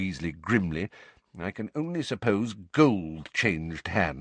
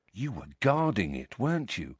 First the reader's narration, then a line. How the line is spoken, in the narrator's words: said George quietly